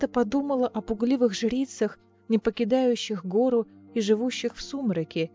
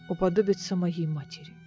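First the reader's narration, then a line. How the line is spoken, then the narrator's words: Quiet reply. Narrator (Russian): тихо ответил Кассиан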